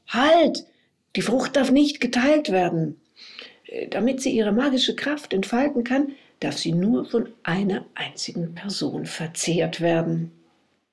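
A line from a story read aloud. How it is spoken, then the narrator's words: Calling out. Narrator (German): rief Narada aber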